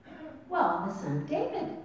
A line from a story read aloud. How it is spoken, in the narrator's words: they replied